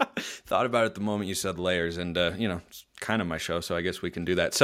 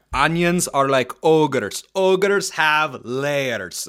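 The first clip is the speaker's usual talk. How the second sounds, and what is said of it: Imitates a movie character's accent. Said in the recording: “Wanted to break out the accent.”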